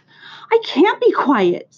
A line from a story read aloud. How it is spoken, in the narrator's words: screamed Wilbur